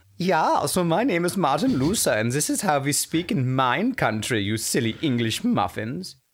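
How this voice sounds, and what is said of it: Poorly done German accent. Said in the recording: “why don't you have a German accent ... couldn't you at least try one for us ... we said a German accent, not an ancient Egyptian one”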